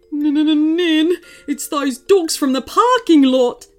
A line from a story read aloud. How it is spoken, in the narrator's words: yelped the man